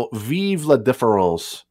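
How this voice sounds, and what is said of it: Bad put-on French accent. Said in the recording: “that's a terrible French accent”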